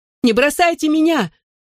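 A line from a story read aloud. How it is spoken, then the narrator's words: Desperate shout, weak legs. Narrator (Russian): что из силы закричал я, чувствуя слабость в ногах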